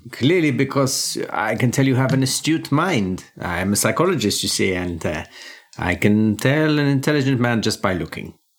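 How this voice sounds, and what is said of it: Put-on German accent. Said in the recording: “or a German. ... Oh, very, very good recognition of my accent.”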